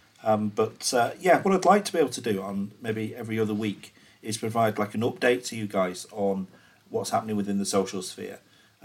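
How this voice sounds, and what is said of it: Hoarse, throaty voice. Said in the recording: “I've got a bit of a frog in my throat.”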